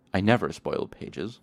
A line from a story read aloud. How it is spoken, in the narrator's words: Chronicler said haughtily